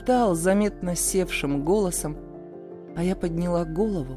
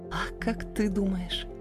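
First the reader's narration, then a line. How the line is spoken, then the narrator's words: Breathless barely audible whisper. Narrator (Russian): выдохнула едва слышно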